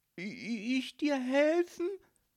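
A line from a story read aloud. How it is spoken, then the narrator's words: Stammering. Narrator (German): stotterte Marie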